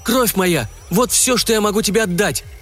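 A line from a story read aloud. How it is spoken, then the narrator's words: Exclamation. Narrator (Russian): воскликнул он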